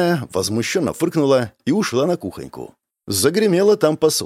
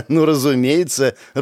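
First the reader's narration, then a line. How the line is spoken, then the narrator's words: Laughing. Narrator (Russian): рассмеялась Беляна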